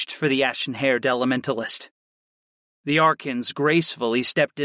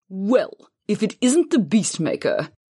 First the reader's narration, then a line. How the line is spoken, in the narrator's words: Hoonah scoffed